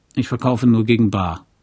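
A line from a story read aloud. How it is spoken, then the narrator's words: Growling. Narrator (German): knurrte Axel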